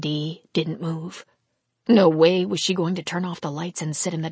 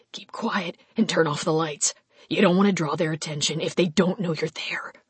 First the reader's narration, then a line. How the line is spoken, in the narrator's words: he whispered